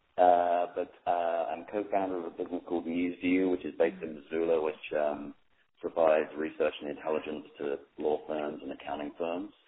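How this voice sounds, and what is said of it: Non-local accent. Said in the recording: “you can tell from the accent I'm not from these parts originally”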